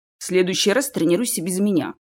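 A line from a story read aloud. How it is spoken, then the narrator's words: Grumbled instead of greeting. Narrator (Russian): пробурчал Чес вместо приветствия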